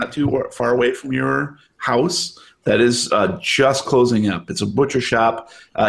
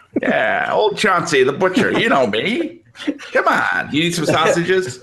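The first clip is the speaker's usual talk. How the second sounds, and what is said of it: Put-on New York accent. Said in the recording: “Why does everyone in this state have a New York accent?”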